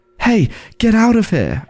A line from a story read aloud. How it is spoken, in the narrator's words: I shouted, trying to hide the fear in my voice